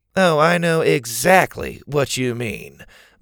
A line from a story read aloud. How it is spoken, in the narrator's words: Bo said sarcastically